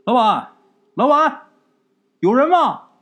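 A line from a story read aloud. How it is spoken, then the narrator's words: Calling out. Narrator (Chinese): 张武就喊啊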